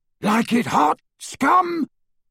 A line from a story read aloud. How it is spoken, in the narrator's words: roared Crab as he ran